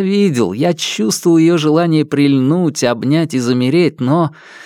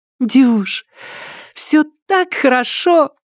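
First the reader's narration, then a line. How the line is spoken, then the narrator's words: Breathless girl. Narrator (Russian): выдохнула девушка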